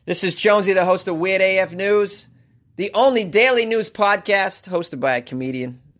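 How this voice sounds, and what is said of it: Thick Boston accent. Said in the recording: “my thick-ass Boston accent.”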